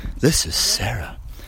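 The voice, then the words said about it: Polished NPR-style radio voice. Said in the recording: “Very nice radio voice there ... that's your NPR voice”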